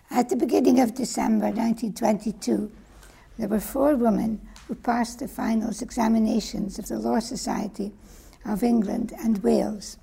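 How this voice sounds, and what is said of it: Hoarse voice. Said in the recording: “I'm a bit hoarse tonight”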